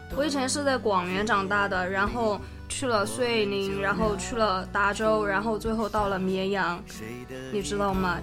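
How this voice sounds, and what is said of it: Mixed Sichuan regional accent. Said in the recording (Chinese): “四川的话 ... 大家都会说我说话的口音都有一点儿点儿不一样 ... 就是哪儿的话都掺杂一点儿”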